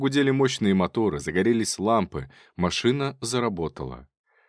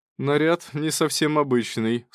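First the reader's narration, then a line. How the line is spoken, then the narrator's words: Laughing. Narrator (Russian): смеялся Качинский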